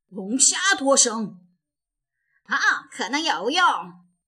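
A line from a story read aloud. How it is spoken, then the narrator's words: Surprised exclamation. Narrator (Chinese): 巴克队长惊讶地叫了出来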